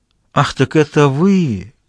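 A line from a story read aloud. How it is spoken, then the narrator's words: Ironic exclamation. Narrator (Russian): воскликнул с иронией Бартес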